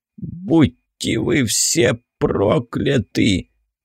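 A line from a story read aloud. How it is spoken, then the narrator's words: Groan. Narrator (Russian): простонал начальник экспедиции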